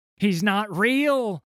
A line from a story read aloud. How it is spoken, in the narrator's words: screamed Ally, his mind undone by the sight of Nautilus